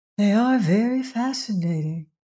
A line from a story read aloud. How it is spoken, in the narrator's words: said Myra dreamily